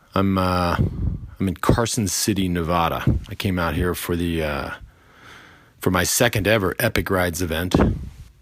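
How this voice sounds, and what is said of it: A little tired voice. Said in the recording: “I sound a little tired”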